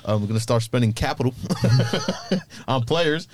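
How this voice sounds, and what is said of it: Put-on American accent. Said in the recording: “do that in an American accent”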